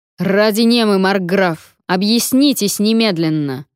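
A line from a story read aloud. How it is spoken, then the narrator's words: Roaring. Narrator (Russian): проревел Вонвальд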